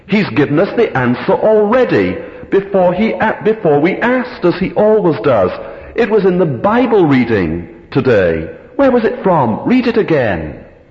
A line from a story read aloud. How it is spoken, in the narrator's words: cried Betsy